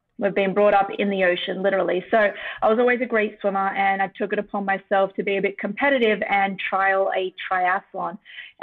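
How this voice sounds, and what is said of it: Australian accent. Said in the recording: “originally from Sydney, Australia, which is why I've got this accent”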